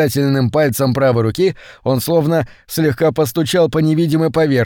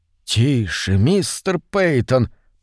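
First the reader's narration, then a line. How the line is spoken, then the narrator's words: Frightened whisper. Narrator (Russian): произнес Корнелл испуганным шепотом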